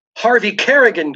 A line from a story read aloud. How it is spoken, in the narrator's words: gasped Devereaux